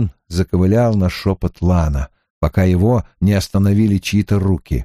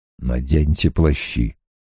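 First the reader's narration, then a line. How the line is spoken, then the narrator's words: Quiet. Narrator (Russian): тихо сказал Лан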